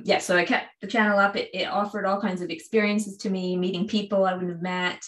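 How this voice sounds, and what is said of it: Canadian accent with slight British twang. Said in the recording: “hear a little bit of the, like, the London accent, but the Canadian. ... the slight British twang I now have ... hear my Canadian ... some people ask me if I'm Irish, which must be the Nova Scotia thing ... I hear Irish, and I hear Canadian, and I hear Southeast UK”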